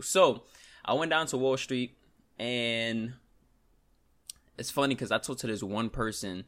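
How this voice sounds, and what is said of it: New York accent. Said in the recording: “We in New York... my accent... I pronounce things very weird”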